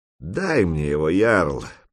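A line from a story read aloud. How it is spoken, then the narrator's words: Through gritted teeth. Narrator (Russian): процедил Хольд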